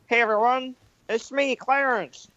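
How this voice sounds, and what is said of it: Cartoon character voice. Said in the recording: “the voice of Clarence ... Are you allowed to do the voice here?”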